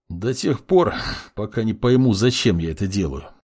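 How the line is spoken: Young man snorting. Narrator (Russian): фыркнул парень

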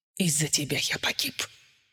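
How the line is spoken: Whisper. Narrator (Russian): прошептал Коннелл

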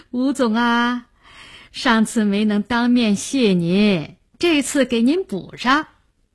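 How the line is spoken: Polite, laughing. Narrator (Chinese): 对方还是那么客客气气地笑着

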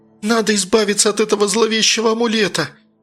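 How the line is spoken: Angry shout. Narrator (Russian): в сердцах выкрикнула Надя

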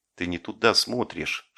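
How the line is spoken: Whispered. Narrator (Russian): шепнул Жеглов

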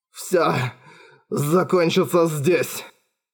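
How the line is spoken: Rasped. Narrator (Russian): прохрипел Кристофер

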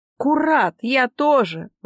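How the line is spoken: Exclamation. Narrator (Russian): воскликнул Густав

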